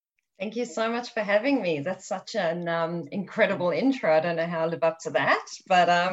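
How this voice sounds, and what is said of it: South African accent. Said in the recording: “You can definitely hear by the accent, yes, from South Africa.”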